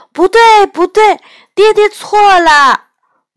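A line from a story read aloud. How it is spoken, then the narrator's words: Child shouting. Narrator (Chinese): 小献之…拍着小手喊道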